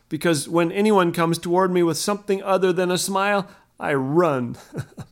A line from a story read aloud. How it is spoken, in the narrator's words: Ken laughed